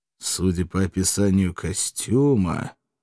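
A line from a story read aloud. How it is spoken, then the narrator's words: Pensive drawl, growing dread. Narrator (Russian): задумчиво протянул я, ощущая, как страшная догадка ковыряется в сердце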